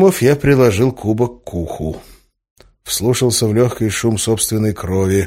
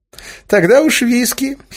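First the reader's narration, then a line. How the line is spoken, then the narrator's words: Giggle. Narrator (Russian): хихикнул Разум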